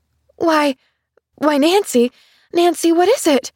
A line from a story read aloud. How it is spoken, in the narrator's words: She cried